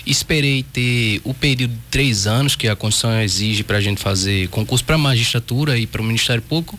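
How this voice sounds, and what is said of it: Pernambuco Brazilian Portuguese accent. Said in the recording (Portuguese): “meu sotaque pernambucano... já é, entrega”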